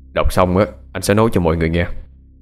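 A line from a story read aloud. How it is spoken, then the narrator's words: Deep, cold voice. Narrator (Vietnamese): Anh lên tiếng với chất giọng trầm lạnh của mình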